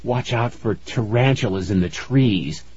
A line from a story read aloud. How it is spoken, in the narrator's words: he whispered